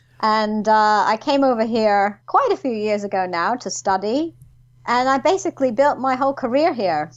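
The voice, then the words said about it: New York American accent. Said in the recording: “originally, I was um, from New York, mm-hmm. as you can probably tell by my accent ... despite the accent”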